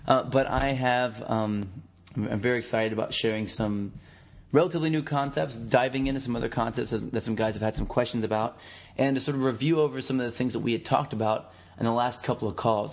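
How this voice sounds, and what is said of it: Lower, worn voice from overuse. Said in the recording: “my voice sounds like I'm an octave lower, because I've been screaming and talking to people for a while”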